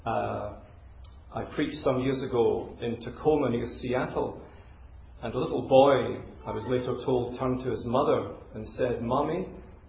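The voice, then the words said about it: Educated Glasgow Scottish accent. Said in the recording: “my accent's not Chinese. It's educated Glasgow ... educated Glaswegians speak like this”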